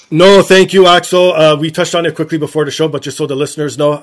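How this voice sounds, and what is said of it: Rough, rocky sick-sounding voice. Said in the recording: “I might cough, I might do the sniffles. I know my voice sounds a little bit rocky... Sounds beautiful, a rocky voice”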